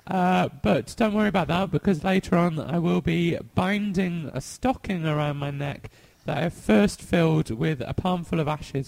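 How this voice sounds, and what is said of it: Sore-throated, grating voice. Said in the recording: “I've got a bit of a sore throat today. So I know my voice is normally quite grating, but it might be even worse today”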